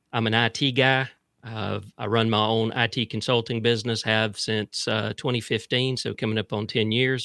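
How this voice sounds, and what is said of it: Mild South Georgia accent. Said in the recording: “I'm from South Central Georgia. So you may pick up a little bit of that accent. But it's not that bad.”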